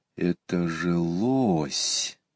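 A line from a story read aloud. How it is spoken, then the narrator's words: Quiet. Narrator (Russian): тихо сказал Иван Кузьмич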